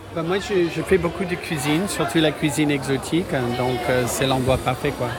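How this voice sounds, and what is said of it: Slight American accent in French. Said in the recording (French): “Je reconnais un petit accent... Je suis américain”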